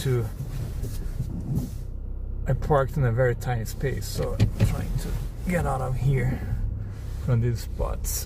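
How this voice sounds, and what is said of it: Foreign, non-American accent. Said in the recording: “I'm a foreigner, I'm not an American, so I have this weird accent”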